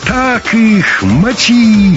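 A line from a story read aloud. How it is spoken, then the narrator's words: Gleeful yelling. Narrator (Russian): задорно вопил Валерка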